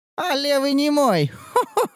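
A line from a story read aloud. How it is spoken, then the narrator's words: Cawing laugh. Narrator (Russian): Засмеялась знахарка каркающим смехом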